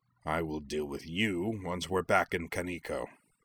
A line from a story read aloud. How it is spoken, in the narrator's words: him growling to Shuten